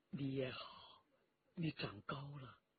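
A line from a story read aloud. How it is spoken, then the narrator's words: Gentle, soft. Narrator (Chinese): 霍青铜 他柔声地说道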